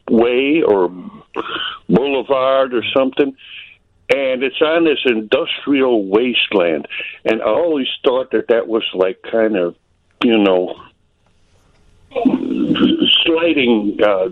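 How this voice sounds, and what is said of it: Noticeable regional accent. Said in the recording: “you can hear you got the accent”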